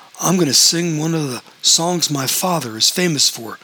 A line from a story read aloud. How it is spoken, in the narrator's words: said Arlo